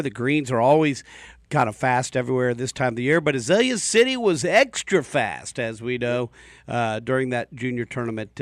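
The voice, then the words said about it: Radio DJ style voice. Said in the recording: “DJ voice”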